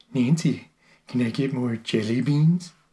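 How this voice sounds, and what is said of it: Bad Ronald Reagan impression. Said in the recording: “bad Reagan impersonation”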